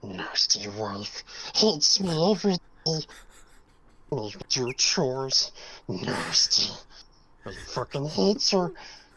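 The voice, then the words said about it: Smeagol impression. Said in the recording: “Because I know what Smeagol sounds like. ... You be Schmeagle”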